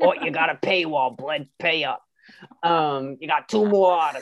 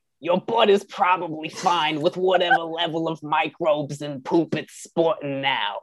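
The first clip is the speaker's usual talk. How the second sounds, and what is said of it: Put-on New York accent. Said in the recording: “new york new york new york ... accent ... i'm walking here ... maybe i'll read this quote in that accent”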